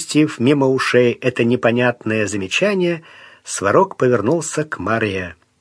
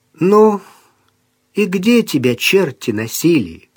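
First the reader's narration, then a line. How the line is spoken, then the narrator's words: Calm question. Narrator (Russian): поинтересовалась она спокойно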